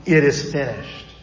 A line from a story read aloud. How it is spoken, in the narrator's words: Jesus cries out